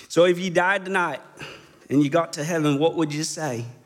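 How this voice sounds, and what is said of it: Poor imitation of Pastor Begg's accent. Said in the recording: “Are you going to do the terrible accent? ... I try to start it out in whatever dialect this is, Texan or whatever. It invariably ends up to some English version that sounds like a poor imitation of Downton Abbey or something”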